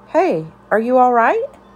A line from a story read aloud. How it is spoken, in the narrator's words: In a gentler tone, she asked